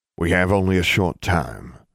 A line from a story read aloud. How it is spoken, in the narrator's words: Abraham Thorne said